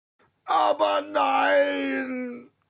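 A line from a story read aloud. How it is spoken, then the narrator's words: Lion roaring. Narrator (German): brüllte der Löwe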